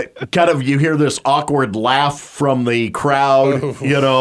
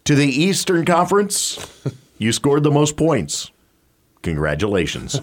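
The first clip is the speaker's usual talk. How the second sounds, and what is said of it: Flat deadpan delivery. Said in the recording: “utter deadpan. It was so dead on ... Just deadpan.”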